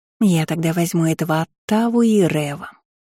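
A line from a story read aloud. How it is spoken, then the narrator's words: Languid drawl. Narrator (Russian): томно протянула Аннет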